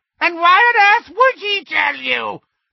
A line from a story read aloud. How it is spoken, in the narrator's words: screeched Muriel, swaying a little in her seat as she attempted to focus upon Harry